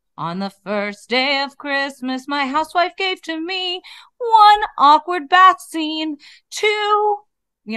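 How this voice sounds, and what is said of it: Sung imitation of another person's voice. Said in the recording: “I was trying to do a good impression of Lisa singing. I did the best.”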